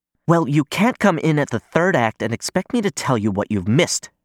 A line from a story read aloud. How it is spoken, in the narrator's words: she snaps